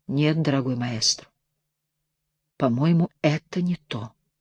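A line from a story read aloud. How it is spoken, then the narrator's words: Quiet, smirking. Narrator (Russian): усмехнувшись, и тихо проговорил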